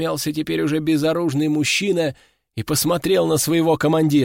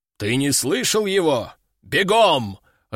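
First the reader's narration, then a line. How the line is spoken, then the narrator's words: Growl. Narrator (Russian): рыкнул тот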